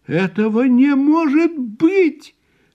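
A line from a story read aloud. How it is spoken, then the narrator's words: Shouted, aunt. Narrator (Russian): крикнула тетя Сильвия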